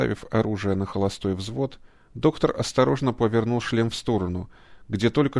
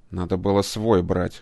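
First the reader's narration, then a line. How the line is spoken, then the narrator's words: Grumbling. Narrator (Russian): проворчал кибернетик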